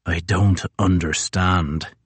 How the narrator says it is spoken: he rasps

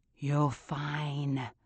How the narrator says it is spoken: he whispers

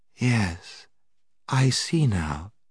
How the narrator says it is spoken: said Jill in a heavy, hopeless tone

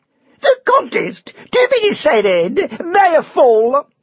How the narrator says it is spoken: shouted the herald

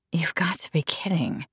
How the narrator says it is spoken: Natalie whispered

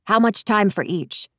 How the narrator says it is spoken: she asked me

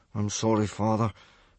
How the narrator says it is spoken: Hiccup mumbled miserably

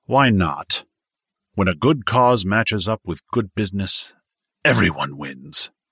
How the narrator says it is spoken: Victor growled

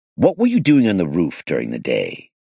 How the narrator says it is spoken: asked sharply

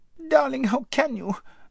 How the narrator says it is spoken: squeaked Lazareline

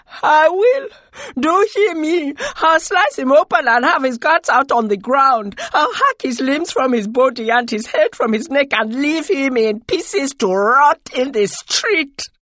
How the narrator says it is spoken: said, with angry contempt

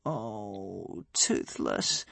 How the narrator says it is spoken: moaned Hiccup with his hands over his eyes

